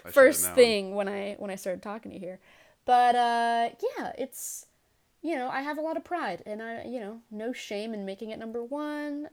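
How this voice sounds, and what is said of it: Bronx New York accent. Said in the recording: “I'm surprised you couldn't tell by my accent that I'm from the Bronx.”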